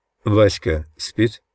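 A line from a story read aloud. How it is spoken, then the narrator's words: Plain question. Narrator (Russian): спросил я наконец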